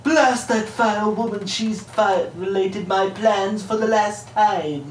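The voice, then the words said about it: Cartoon baby voice, British accent. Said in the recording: “Stewie is fun to voice ... He's the baby ... With a British accent.”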